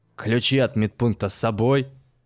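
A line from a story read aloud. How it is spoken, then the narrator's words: Stern question. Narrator (Russian): строго спросил Карп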